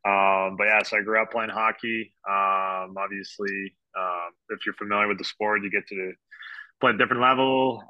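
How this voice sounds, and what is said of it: Slight French Canadian accent. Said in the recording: “if you hear a little French accent”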